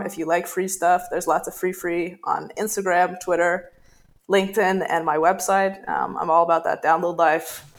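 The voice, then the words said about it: Strange, unusual accent. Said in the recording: “this really strange accent I have going on”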